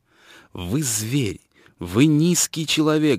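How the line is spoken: Stung, shrill shout. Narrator (Russian): закричала она, как ужаленная

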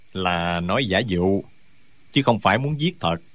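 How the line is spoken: Smiling. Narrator (Vietnamese): Tả Tốn mỉm cười

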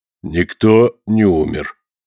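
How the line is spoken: Grim, funereal tone. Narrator (Russian): ответил таким мрачным тоном, словно сообщал ей о том, что вымер весь их род

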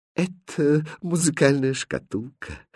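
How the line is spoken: Quiet. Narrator (Russian): тихо сказал Христиан

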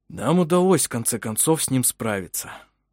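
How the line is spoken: Satisfied sigh. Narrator (Russian): вздохнул Ульф, довольный хорошо выполненной работой

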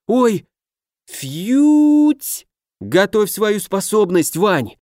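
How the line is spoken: Breathless exhale. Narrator (Russian): выдохнул я

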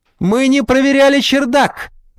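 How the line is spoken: Sudden shout. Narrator (Russian): вдруг выкрикнула Искорка

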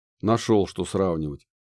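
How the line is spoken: Dentist's scoffing snort. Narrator (Russian): хмыкнул дантист

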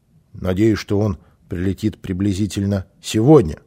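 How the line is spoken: Plain. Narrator (Russian): сказал Кристор

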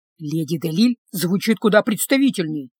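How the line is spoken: Whisper. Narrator (Russian): прошептал Люк

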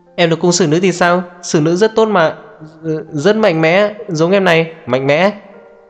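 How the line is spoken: Flustered loud shouting. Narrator (Vietnamese): Niêm Bách Tiêu đỏ bừng mặt, hét ầm ĩ

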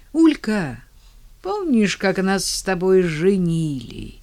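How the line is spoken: Forced mocking-innocent tone. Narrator (Russian): спросил Андрей, через силу стараясь придать своему голосу тон насмешливо-простодушный

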